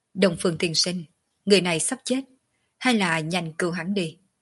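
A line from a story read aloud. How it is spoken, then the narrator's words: Cold speech. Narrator (Vietnamese): Quần kiếm lạnh lùng nói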